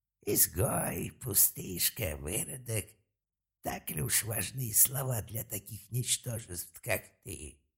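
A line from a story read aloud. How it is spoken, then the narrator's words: Calm, then hissed hatefully. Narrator (Russian): Если первую часть фразы он произнес достаточно спокойно, то вторую прошипел с такой ненавистью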